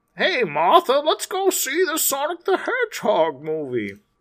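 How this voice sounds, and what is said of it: Old man character voice. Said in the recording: “That was an old man. ... I don't know what accent that was, but it was great. ... It was old person accent. Old person accent.”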